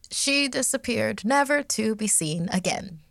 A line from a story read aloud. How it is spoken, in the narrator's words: said in a bright tone, almost too cheery